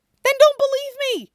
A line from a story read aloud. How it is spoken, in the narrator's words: Stiles yells